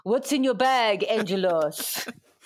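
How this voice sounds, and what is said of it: Put-on Italian accent. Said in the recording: “I don't know what accent I'm doing ... he just shouted over in his Italian accent”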